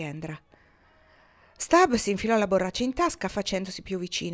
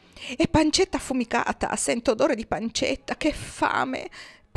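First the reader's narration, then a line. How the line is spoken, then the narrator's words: Hungry whimpering. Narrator (Italian): piagnucolò Stab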